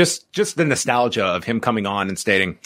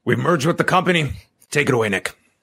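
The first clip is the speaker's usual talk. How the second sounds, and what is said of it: Imitates another person's voice. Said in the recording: “very good impression”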